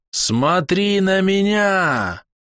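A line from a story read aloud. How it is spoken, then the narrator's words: Shouting. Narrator (Russian): закричала Гейду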